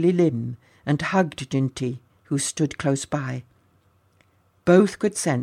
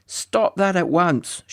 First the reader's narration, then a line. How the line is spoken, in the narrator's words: shouted